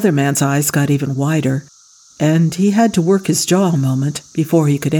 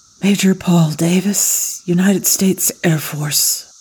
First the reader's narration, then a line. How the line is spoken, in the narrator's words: Paul whispered